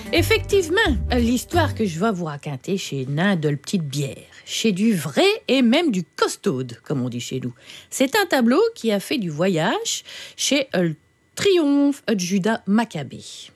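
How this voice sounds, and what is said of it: Regional northern French accent. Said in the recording (French): “avec votre accent du schnorr”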